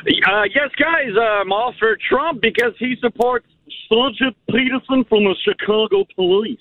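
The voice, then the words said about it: Impression of Mr. Peterson from Ferris Bueller. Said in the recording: “He was doing the yeah. the Mr. Peterson from Ferris Bueller's Day Off. That's, that's, a pretty good imitation.”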